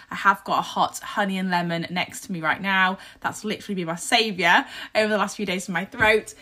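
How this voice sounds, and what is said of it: Croaky, husky voice. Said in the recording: “my voice is a little bit croaky ... any croakiness, any husky voice”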